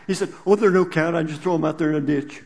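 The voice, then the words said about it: Imitates another person's voice. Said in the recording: “his Bill Monroe impression”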